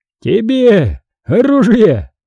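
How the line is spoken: Hearty booming laughter. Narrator (Russian): Неподдельно развеселился Глеб и раскатисто захохотал

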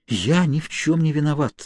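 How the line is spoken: Breathless whisper. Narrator (Russian): задыхаясь, прошептал

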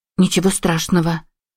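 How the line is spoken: Breathless mutter. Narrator (Russian): затаив дыхание, пробормотала Айя

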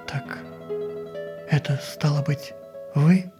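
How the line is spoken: Quiet. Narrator (Russian): сказала она тихо

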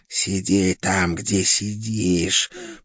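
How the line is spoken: Hissing. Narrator (Russian): прошипела Оккул

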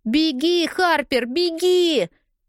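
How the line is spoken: Screaming at top of lungs. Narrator (Russian): вопит Катя во все горло

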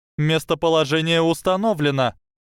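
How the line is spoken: Shouting. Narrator (Russian): выкрикнула Ора

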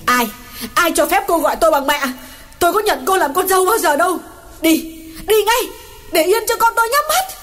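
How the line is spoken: Old woman shouting. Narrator (Vietnamese): Bà Nhường quát lên

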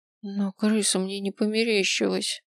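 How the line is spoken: Governess muttering. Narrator (Russian): пробормотала гувернантка

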